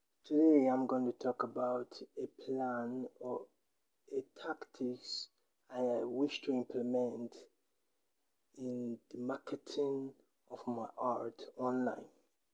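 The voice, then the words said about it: Noticeable non-native English accent. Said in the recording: “I hope you are able to understand my accent.”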